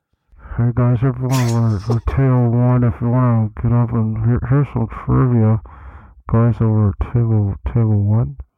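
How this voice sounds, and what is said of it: Imitates another person's voice. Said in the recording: “do an impersonation of your wedding DJ”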